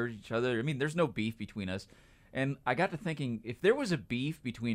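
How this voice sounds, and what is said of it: Usual voice. Nothing is said of it.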